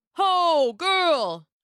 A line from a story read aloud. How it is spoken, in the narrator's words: a voice shouted